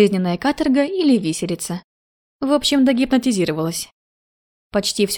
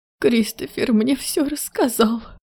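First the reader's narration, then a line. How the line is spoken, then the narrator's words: Sobbing. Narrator (Russian): Всхлипнула ее светлость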